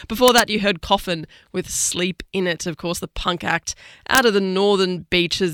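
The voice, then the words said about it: Slightly rough, off voice. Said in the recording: “I'm getting over a cold, so my voice is a bit awry this week”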